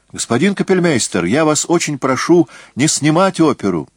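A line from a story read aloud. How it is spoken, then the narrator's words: Exclaiming. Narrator (Russian): воскликнул я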